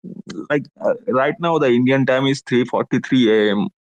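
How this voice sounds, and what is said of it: Indian accent. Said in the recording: “you do that Indian accent so perfectly for like an hour at a time”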